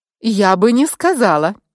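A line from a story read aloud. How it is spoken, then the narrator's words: Sudden exclamation. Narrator (Russian): внезапно воскликнула я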